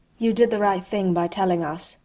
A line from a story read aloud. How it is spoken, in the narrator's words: he said